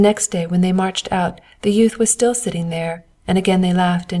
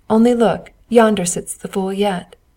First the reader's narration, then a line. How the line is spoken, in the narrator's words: They laughed as they passed and said